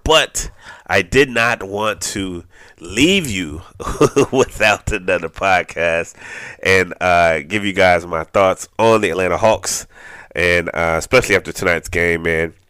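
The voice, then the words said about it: Slightly raspy, congested voice. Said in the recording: “my voice may sound a little raspy, a little sinusy ... my sinuses are doing that thing”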